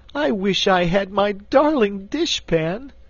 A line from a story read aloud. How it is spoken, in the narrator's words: wailed Cake